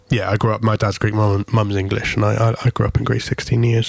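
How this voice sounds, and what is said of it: English accent. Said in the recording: “my accent, yes, I'm English”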